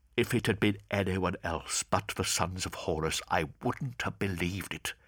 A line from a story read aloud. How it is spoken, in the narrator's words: whispered Semper